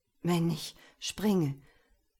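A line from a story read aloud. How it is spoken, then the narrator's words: Trembling voice. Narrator (German): sagte er mit zitternder Stimme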